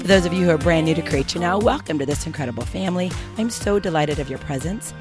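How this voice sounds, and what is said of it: Strange-sounding, unusual voice. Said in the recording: “my voice is a little strange”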